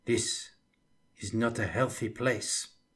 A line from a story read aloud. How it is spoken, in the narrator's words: whispered Jules Gascon